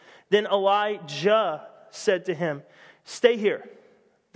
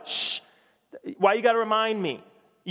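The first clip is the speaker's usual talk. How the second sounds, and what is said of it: Irritated, attitude-filled character line. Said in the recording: “You can hear the attitude in his voice.”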